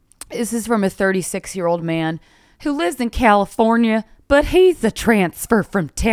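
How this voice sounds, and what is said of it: Usual voice. Nothing is said of it.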